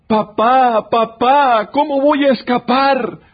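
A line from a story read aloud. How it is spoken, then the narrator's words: Child shouting. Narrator (Spanish): gritó el niño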